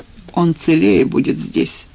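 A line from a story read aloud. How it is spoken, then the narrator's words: Gloomy. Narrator (Russian): мрачно ответил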